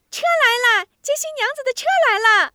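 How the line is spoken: Child shouting. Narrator (Chinese): 外边的孩子喊

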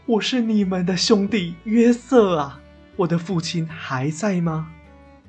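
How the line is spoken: Loud crying. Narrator (Chinese): 约瑟放声大哭的对兄弟们说

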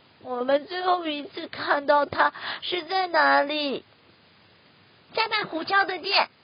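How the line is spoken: Crying. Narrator (Chinese): 松鼠哭着说

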